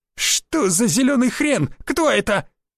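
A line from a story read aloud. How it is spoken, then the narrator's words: Frightened squeal. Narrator (Russian): взвизгнул из другой группы худой как жердь арбалетчик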